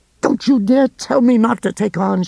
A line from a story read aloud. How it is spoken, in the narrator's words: she shrieked into his face